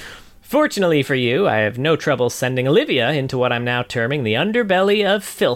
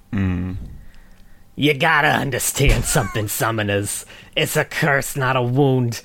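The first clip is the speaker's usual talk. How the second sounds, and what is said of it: Brooklyn accent, Trundle voice. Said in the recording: “Trundle's clearly Brooklyn accent”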